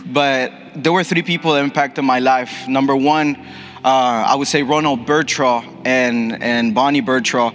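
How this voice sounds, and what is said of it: Ecuadorian Spanish accent. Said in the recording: “I'm fully Ecuadorian, and you can hear it in my accent for sure.”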